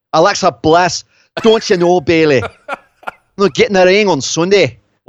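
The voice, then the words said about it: Put-on Glaswegian accent. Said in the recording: “a Glaswegian accent”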